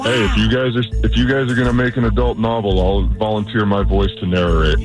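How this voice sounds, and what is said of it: Deep male voice. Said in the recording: “deep voice”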